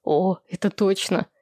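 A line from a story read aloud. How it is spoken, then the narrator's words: Laughing. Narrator (Russian): Владислав не выдержал и тоже рассмеялся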